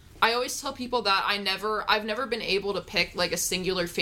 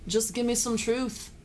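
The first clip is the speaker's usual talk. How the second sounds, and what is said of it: Bad imitation of another person's accent. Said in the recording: “As John Lennon would say, that was a very bad accent”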